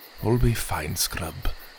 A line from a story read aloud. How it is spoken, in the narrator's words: he whispered